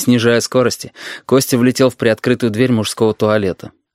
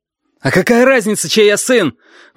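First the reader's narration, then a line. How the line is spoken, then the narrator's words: Sudden spluttering shout. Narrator (Russian): вдруг закричал Костя, разбрасывая слюну изо рта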